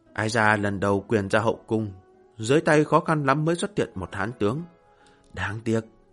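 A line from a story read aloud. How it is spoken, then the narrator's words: Regretful soft sigh. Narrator (Vietnamese): Hạ Hầu Thừa Vũ tiếc nuối khẽ thở dài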